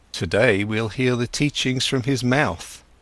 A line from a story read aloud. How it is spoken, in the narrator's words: said Govinda